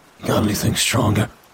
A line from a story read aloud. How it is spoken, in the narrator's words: he asked with another sigh